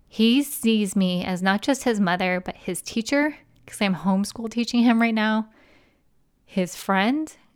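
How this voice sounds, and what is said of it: Teary, emotional voice. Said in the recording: “I'm teary-eyed, you guys, as we're recording this. You can probably hear it in my voice”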